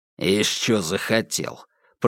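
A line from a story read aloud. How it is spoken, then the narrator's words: Grumble. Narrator (Russian): проворчал Бугор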